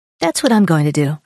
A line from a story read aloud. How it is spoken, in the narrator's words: I said